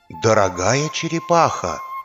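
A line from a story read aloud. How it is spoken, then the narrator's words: Quiet but audible. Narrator (Russian): сказал он тихо, но так, чтобы слышали все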